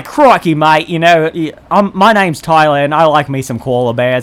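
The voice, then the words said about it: Put-on Australian accent. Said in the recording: “Every accent I do just fades Australian, so I usually just stick with it.”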